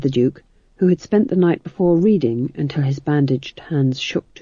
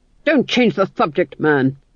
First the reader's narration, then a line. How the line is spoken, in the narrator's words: snapped the Duke